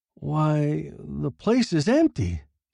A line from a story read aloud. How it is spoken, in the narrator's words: Bryson exclaimed